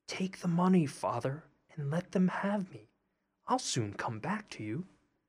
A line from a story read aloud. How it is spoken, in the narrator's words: Tom whispered in his ear